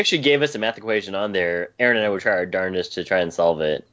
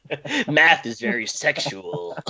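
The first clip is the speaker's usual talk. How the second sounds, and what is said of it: Imitates another person's voice. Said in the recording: “my Stellan Skarsgård Goodwill Hunting impersonation ... it was great. It was pretty perfect.”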